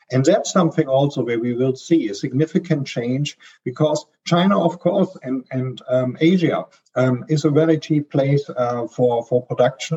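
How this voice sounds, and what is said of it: Strong German accent. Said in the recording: “I'm a German, as you can hear from my strong accent”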